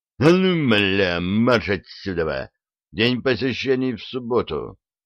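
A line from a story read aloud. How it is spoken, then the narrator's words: Swearing in rough male bass. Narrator (Russian): Человеческое существо обматерило сержанта грубым мужским басом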